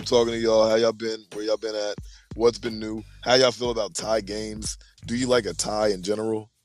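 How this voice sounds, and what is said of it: Hoarse, recovering voice. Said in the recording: “I lost my voice. I'm getting it back.”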